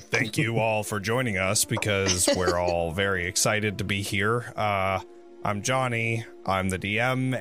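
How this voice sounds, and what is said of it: Hoarse, strained voice. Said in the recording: “I'm going to be struggling to talk the entire fucking night ... I lost my voice because of a wedding and other fun stuff”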